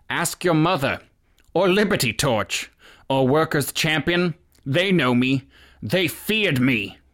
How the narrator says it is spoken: He called out

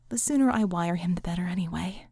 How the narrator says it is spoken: Vickie sighed

